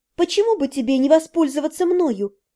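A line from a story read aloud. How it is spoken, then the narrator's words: Timid offer. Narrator (Russian): робко предложила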